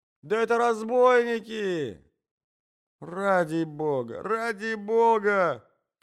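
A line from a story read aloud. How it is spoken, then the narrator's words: Shouting. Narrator (Russian): кричал Иван Андреевич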